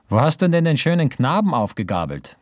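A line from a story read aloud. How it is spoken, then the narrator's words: Calling out. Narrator (German): rief sie noch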